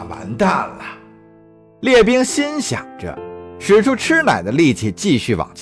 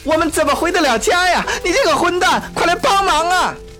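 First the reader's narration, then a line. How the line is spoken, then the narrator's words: Woman shouting. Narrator (Chinese): 女人又喊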